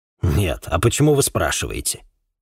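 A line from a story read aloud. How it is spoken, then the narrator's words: Snorting. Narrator (Russian): фыркнул собеседник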